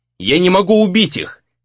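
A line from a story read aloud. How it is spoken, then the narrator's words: Shouted mid-fight. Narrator (Russian): крикнул Рэй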